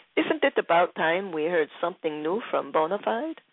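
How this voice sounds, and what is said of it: Poor put-on French accent. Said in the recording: “A lousy French accent right there”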